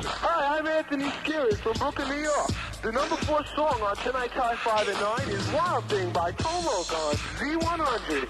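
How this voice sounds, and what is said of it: Strong accent. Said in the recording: “you've got such an accent there”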